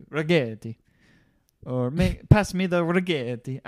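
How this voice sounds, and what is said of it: Poor put-on Italian accent. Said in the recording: “Like an Italian... I should stop doing accents. I'm not very good.”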